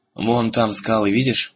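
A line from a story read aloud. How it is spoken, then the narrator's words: Plain. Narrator (Russian): сказал Муртаг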